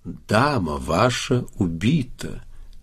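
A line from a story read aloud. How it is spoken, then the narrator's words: Gentle. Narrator (Russian): сказал ласково Чекалинский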